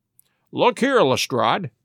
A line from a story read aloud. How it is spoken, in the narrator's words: said he